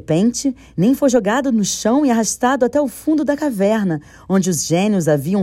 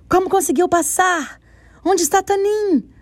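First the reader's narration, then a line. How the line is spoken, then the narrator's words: Shrill voices shouting. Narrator (Portuguese): correndo em volta dele, gritando com vozes estridentes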